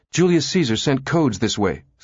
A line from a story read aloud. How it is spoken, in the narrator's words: Susan blurted